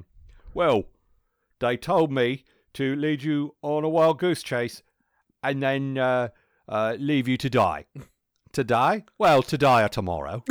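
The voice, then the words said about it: Put-on London accent. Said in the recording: “the joke was based around a London accent, and it was absolutely delightful”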